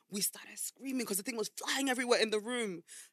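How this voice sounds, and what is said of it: Speaks with a noticeable accent. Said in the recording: “With this accent and everything ... Especially because you have an accent”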